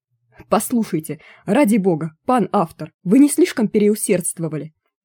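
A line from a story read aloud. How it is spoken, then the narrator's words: Furious yelling. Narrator (Russian): заорал разъяренный Януш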